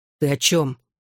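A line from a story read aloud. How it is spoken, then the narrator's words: Angry question. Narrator (Russian): спросил Джонни, сердито посмотрев на него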